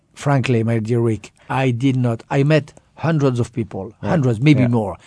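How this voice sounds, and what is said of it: French accent. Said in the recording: “you sound as French as can be ... my accent”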